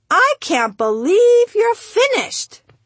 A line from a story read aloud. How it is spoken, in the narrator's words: she squealed